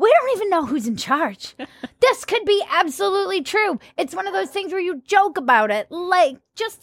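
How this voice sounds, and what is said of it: Usual voice. Nothing is said of it.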